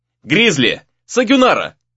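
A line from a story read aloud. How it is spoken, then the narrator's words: Shout. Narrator (Russian): крикнул Рэй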